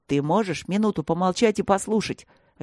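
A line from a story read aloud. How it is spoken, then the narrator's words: Sharp bark. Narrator (Russian): Рявкнул он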